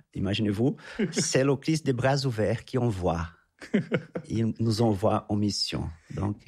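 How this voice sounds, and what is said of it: Brazilian accent in French. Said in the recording (French): “originaire du Brésil, quand on commence à le deviner, peut-être à l'entendre un petit peu... l'accent”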